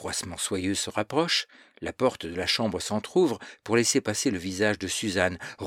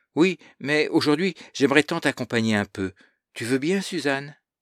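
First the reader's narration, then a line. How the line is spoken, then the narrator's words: Pleading voice. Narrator (French): Et la voix se fait suppliante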